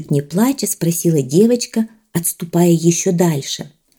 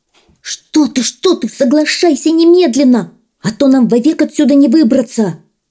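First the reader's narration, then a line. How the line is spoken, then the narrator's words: Shouting. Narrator (Russian): закричал гребешок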